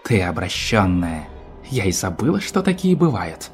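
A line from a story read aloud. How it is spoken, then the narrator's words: Through gritted teeth. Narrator (Russian): процедила гостья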